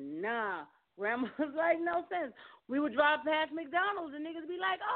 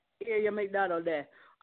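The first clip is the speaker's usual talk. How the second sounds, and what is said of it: Put-on Jamaican accent. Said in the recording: “Now put that with a Jamaican accent.”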